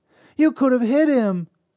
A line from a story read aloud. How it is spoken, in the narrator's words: Susanna cried